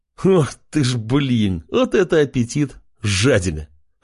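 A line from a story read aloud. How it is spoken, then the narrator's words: Laughing. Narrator (Russian): хохотнул Джек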